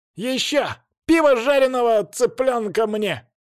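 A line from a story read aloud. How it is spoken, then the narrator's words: Young man shouting. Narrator (Russian): кричал не я, а паренек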